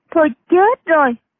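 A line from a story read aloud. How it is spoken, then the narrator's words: Dismayed exclamation. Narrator (Vietnamese): Triệu Mẫn ... kêu lên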